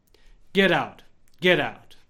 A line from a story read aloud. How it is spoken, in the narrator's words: Padre Pio replied firmly